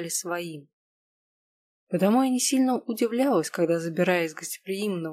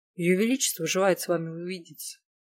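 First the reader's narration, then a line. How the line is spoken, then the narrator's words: Calm. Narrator (Russian): спокойно произнес он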